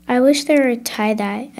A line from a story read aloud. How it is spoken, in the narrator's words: I said